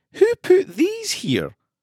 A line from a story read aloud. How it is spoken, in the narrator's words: Bon Bon asked no one, giggling to herself